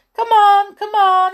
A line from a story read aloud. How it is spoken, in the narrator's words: he cried